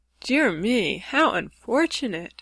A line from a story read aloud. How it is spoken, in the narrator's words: sighed the lovely Rainbow's daughter